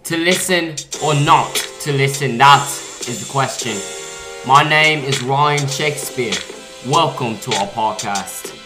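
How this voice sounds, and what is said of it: Put-on English accent. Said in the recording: “where did you get an English accent?”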